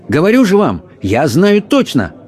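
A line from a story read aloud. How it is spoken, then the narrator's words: Excited exclamation. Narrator (Russian): возбужденно воскликнул герцог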